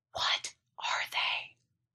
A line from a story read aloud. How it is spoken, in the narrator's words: I whispered, half afraid I'd draw them my way again if I spoke any louder